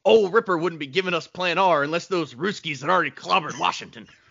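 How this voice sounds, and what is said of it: Imitates a movie character's voice. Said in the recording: “That's a good impression too.”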